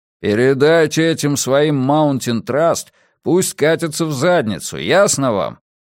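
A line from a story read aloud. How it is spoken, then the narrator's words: Grumbling. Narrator (Russian): проворчал Иона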